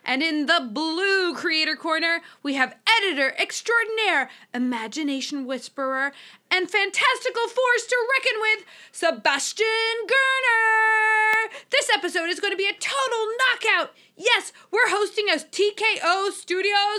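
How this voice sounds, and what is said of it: Boxing ring announcer voice. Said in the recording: “Your ring announcer voice is spot on. It's like I'm watching a Rocky movie.”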